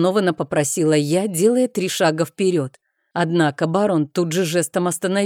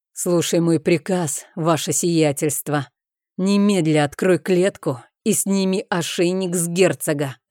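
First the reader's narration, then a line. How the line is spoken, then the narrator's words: Menacing baron, through teeth. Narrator (Russian): процедил угрожающий барон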